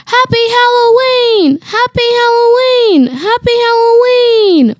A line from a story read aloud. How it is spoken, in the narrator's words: The zookeepers all shouted